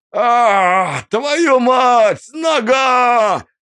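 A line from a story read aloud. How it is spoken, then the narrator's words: Pained yell. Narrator (Russian): Заорал он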